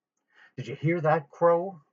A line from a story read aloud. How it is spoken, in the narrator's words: Otis Amber said excitedly